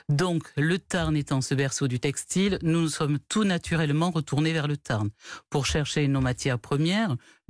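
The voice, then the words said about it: Toulouse French accent. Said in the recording (French): “nous sommes Toulousains, comme vous l'entendez peut-être à mon accent”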